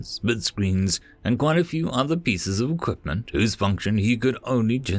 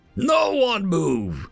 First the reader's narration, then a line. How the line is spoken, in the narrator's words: he bellowed